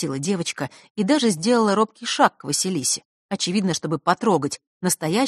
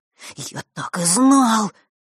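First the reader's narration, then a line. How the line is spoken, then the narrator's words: Breathless boy. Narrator (Russian): выдохнул мальчик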